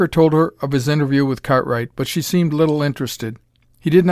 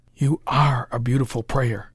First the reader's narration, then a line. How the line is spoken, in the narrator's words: whispered Parker